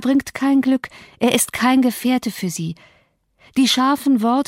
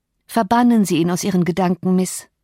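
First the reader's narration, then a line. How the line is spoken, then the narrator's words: Plain. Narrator (German): sagte ich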